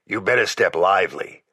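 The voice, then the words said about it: Gravelly male character voice. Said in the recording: “in that gravelly voice of his that always sounded the same whether sober or stewed”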